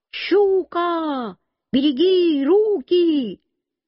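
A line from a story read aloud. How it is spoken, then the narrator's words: Shout. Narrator (Russian): Я тоже закричал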